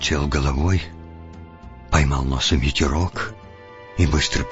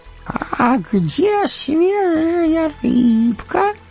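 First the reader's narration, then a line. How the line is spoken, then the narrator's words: Disappointed drawl. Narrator (Russian): разочарованно протянул Горлум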